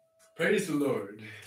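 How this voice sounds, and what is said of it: Put-on Southern American accent. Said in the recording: “I can even do this, the Southern accent... the Southern American accent”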